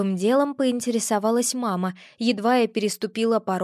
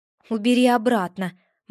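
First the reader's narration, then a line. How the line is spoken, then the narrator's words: Grim reply. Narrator (Russian): мрачно ответила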